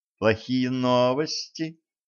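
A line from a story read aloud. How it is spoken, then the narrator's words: Affectionate question. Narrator (Russian): ласково осведомилась Ванесса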